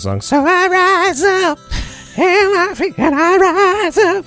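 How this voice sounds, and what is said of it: Bad imitation of a singer. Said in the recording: “That was my horrible impression. ... maybe you need singing lessons.”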